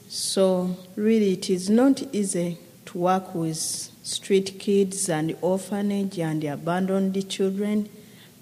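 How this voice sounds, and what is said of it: Ugandan English accent. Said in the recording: “accent, she is a Ugandan lady ... I enjoy your accent.”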